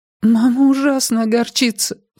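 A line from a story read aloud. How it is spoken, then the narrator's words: Sobbing. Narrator (Russian): всхлипнула Мадлен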